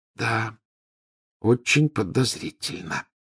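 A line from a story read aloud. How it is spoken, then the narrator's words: Near whisper. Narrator (Russian): почти прошептала Гермиона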